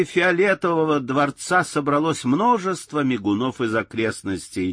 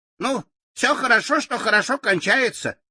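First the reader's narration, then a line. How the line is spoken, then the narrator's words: Cheerful agreement. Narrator (Russian): весело согласился Татошка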